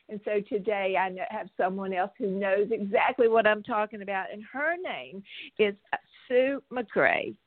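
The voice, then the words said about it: Excited, energetic speaking voice. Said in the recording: “I'm so excited. Can I tell you, can you hear it in my voice?”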